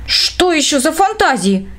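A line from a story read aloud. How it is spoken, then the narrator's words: Exclaimed. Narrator (Russian): воскликнула Эля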